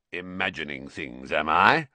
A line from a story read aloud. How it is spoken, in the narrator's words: growled Moody